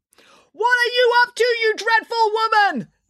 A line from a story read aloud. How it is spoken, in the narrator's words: Nanny Piggins yelled